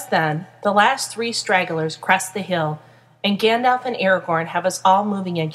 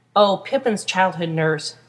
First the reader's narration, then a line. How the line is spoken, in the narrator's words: Merry says with a chuckle